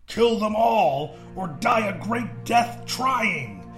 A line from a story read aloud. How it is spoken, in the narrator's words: Jorak screamed